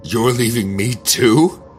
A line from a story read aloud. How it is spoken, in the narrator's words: She screamed